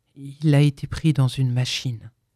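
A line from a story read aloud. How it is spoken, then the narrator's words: Muffled explaining voice. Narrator (French): expliqua le visiteur d'une voix sourde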